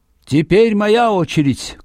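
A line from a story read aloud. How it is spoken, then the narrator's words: Shout trailing off weakly. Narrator (Russian): крикнула, но вдруг ослабела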